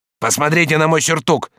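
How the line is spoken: Angry shout. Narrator (Russian): сердито крикнул он

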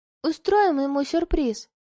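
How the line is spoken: Gentle, affectionate. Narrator (Russian): ласково ответила

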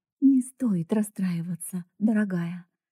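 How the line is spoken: Gentle. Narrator (Russian): мягко сказала мисс Энсли

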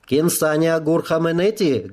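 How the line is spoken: Guttural shout. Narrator (Russian): гортанно выкрикнула Кло

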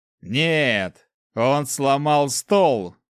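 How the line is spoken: Answered, then burst out laughing. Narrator (Russian): ответил мужчина и залился хохотом

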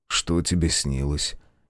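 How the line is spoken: Quiet question. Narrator (Russian): негромко спросил Николай

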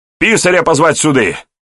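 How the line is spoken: Shouting elder. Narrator (Russian): крикнул тот из старшин, что находился ближе к двери

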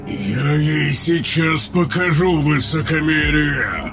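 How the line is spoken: Menacing growl. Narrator (Russian): Угрожающе прорычал Тейрн

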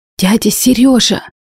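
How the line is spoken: Hoarse, young man. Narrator (Russian): хрипел парень

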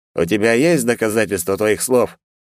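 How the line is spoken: Skeptical snort. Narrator (Russian): хмыкнул в ответ Хамарил

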